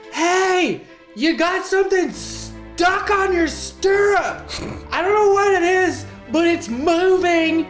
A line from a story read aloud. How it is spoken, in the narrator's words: yell at the captain